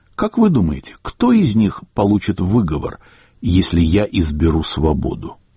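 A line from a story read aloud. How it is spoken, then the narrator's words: Calm and serious. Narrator (Russian): вдруг Слуцкий сказал, без намека на шутку, спокойно и серьезно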